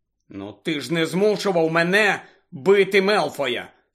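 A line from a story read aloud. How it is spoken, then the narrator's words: Angry objection. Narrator (Ukrainian): сердито заперечив Гаррі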